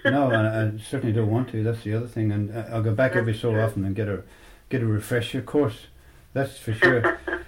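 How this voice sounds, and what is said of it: Irish accent. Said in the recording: “we have the best accent as far as I'm concerned in the world. We all got slightly different, but we're all Irish ... I've still got my accent ... You haven't lost your accent.”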